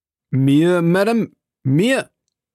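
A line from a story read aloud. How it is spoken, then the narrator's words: Cry. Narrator (German): rief Felton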